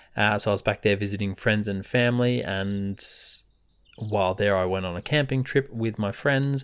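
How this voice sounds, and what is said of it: Australian accent. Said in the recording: “If you can't tell from my accent, I am Australian.”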